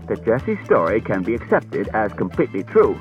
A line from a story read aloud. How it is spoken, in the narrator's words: Bailey said stiffly